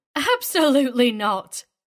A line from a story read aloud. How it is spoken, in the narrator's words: Agatha had responded, laughing